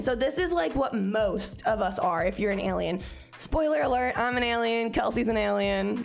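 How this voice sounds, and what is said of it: Scratchy voice. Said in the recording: “I'm on my period right now. My voice gets super scratchy on my period”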